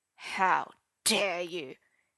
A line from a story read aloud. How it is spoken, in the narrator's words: hissed Uther, turning red